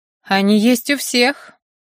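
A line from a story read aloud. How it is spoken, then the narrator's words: Cold, through clenched teeth. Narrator (Russian): холодно процедил я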